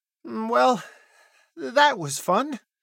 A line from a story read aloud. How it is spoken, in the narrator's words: Jojo mutters